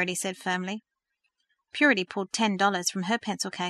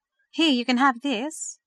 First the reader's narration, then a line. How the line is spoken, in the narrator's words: she offered timidly